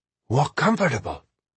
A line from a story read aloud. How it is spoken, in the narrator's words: whispered Ahmed with some irritation